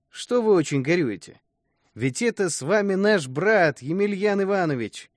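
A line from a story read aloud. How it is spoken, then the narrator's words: Cheerful, smiling. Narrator (Russian): Говорят и весело улыбаются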